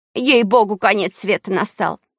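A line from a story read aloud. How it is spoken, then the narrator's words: Shout. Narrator (Russian): крикнула тетенька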